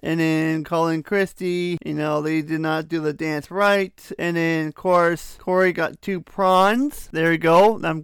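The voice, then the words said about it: Sarcastic tone. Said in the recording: “I'm being a little sarcastic. You can probably tell by my voice, I am being a bit sarcastic”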